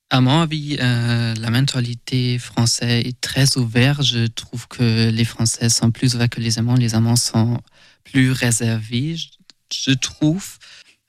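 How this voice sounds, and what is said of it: German accent in French. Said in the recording (French): “j'ai un accent allemand”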